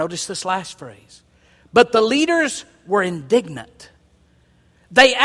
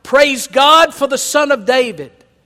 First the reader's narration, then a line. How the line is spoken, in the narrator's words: the children in the temple shouting